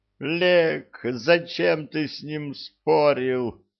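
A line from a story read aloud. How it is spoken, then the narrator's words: Wailing. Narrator (Russian): взвыла Нет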